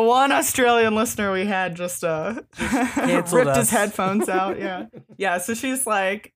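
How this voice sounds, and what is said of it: Usual voice. Nothing is said of it.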